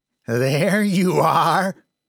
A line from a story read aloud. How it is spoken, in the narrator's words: called out through laughs